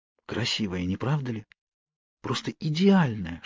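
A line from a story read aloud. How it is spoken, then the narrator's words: Whisper in ear. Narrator (Russian): шепнула мне на ухо Кейт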